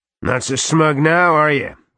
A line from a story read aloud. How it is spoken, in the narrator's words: Garrod roared